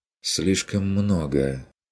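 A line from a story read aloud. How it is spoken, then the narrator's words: Sighing, lowered voice. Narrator (Russian): вздохнула она, понизила голос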